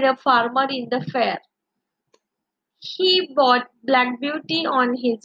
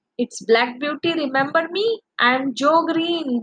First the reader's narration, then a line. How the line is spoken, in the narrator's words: he exclaimed